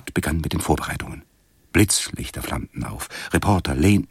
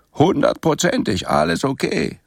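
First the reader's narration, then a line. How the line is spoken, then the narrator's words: Cheerful call. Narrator (German): rief Zoltan und grinste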